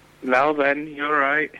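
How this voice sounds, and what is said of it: Jimmy Savile impression. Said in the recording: “It's Jimmy Savile. ... that impression”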